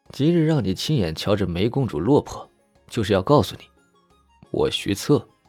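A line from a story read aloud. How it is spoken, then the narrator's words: Laughing. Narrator (Chinese): 徐策笑着道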